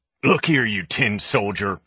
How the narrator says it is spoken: he growled

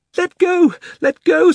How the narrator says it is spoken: screamed Polly

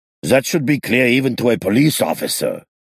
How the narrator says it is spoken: Moses barked angrily

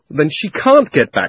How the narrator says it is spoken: shouted Diggory

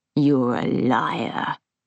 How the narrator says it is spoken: he snarled

